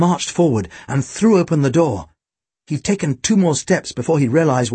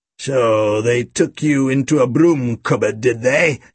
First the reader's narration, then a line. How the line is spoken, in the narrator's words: he snarled